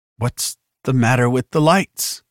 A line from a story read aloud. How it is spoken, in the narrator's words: asked shakily